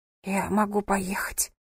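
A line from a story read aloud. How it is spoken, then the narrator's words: Whisper. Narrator (Russian): прошептала она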